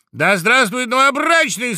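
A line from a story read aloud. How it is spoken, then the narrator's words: Loud shout, woodpecker. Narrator (Russian): закричал дятел громко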